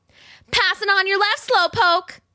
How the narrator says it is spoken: she yelled to the tortoise shrieking with laughter, even though her lungs burned with the effort

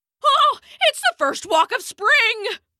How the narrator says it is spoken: he bellowed

